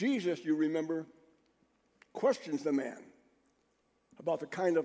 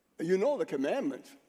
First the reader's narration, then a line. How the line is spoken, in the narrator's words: Jesus said